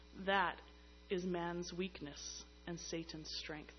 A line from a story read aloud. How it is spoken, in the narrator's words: Jerome solemnly observes